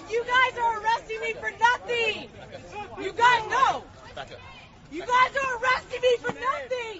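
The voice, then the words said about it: High-pitched, near-tearful voice. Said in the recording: “look at his high voice. ... he's gonna cry.”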